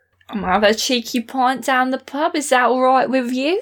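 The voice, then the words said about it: Put-on Cockney accent drifting Australian. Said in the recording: “your Cockney is that it occasionally just becomes entirely Australian”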